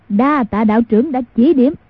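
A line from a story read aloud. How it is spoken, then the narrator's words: Loud guffawing. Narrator (Vietnamese): hồ hố cười lớn nói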